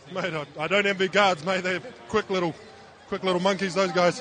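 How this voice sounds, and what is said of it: Australian accent. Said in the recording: “Did you hear the accent, folks? He's using the word mate. Shout out to my cats from down under”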